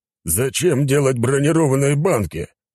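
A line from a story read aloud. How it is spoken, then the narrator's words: Roared. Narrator (Russian): взревел император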